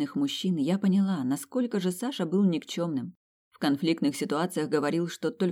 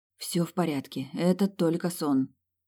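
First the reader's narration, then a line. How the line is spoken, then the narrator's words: Whispered under breath. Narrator (Russian): прошептала под нос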